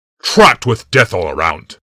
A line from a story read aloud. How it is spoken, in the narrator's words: growled Curtis Worthy